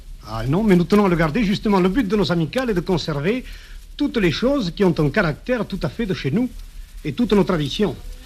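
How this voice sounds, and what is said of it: Regional Aveyron French accent. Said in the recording (French): “vous n'avez pas perdu l'accent.”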